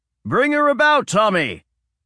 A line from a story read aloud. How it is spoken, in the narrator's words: Dad shouted